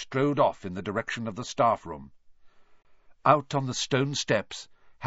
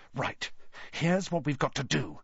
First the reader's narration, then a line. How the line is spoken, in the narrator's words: he whispered urgently